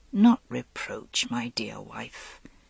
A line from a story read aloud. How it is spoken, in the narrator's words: he said gently